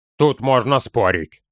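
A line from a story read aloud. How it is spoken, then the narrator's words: Calm objection. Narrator (Russian): спокойно возразил Торин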